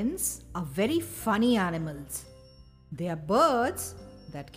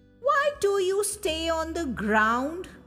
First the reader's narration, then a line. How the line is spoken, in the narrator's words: screeched